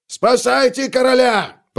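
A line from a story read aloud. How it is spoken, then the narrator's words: Roared. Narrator (Russian): проревел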